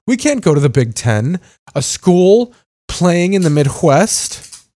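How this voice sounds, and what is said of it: Hoity-toity posh snooty voice. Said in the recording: “I've been doing that accent a little bit ... all the higher up fucking hoity-toity educational people being like”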